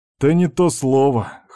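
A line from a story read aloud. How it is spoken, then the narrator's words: Smirking snort. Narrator (Russian): хмыкнул Степан с усмешкой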